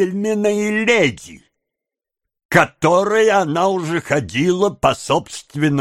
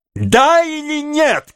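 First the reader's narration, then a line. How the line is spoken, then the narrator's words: Furious shout. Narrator (Russian): крикнул Феджин, обезумев от ярости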